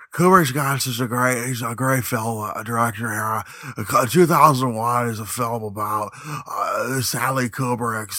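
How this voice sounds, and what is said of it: Imitates another person's voice. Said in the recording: “my Jay Widener impersonation ... In the exact Jay Widener impersonation”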